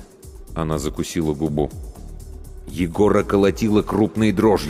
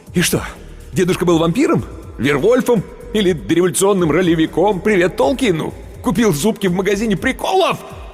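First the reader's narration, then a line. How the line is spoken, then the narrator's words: Yelling. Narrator (Russian): Он уже орал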